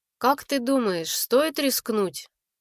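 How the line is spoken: Heavy sigh, grey-haired mage. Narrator (Russian): Седой маг тяжело вздохнул

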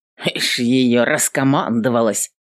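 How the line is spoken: Good-natured grumble. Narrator (Russian): Незлобно пробурчал Хадвин

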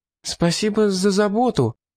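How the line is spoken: Timid babble. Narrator (Russian): пролепетала Олис

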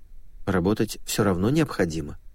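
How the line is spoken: Quiet. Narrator (Russian): тихо произнесла Вера

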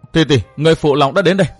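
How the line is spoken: Raised voice. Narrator (Vietnamese): cao giọng nói

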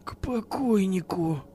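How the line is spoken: Muttered. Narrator (Russian): пробормотал Вадим

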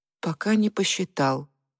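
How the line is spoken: Crestfallen voice. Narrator (Russian): упавшим голосом сказал Федя

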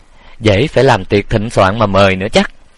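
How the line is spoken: Sarcastic. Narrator (Vietnamese): Quản gia cười nhạt mỉa mai

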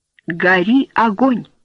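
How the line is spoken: Plain. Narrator (Russian): сказал он

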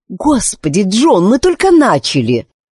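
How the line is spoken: Irritated reply. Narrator (Russian): раздраженно ответила Кларк

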